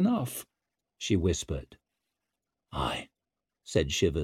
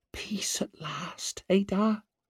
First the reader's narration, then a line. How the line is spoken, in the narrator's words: she whispered